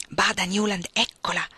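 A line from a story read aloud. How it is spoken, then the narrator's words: Best man whispering. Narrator (Italian): sussurrò il testimone dello sposo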